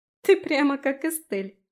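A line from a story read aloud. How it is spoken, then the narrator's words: Giggling. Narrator (Russian): хихикнула Аби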